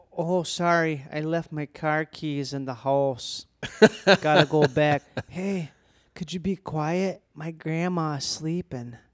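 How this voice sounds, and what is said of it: Exaggerated hardcore Milwaukee accent. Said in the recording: “It's doing like the most hardcore Milwaukee accent.”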